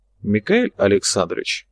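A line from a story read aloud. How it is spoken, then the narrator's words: Quiet but firm interruption. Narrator (Russian): негромко, но твердо перебил бывший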